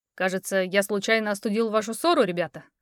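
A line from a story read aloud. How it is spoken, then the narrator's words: Amused snort. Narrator (Russian): хмыкнул Эрик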